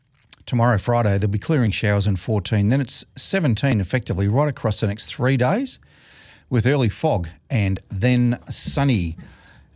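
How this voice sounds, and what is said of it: Slightly hoarse voice. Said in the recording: “I'm a bit hoarse today.”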